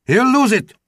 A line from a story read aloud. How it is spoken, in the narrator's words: almost shouted